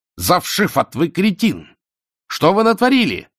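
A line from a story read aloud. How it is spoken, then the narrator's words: Brown-haired man yelling. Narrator (Russian): орал шатен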